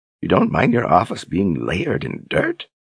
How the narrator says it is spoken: Verna laughed under her breath

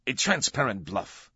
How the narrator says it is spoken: Olivetti snapped

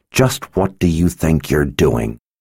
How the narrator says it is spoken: Kara growled through clenched teeth

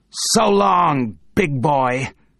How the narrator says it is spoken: snarls Glenn Talbot

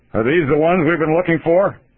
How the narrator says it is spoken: He shouted

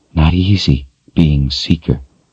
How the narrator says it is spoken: she said softly

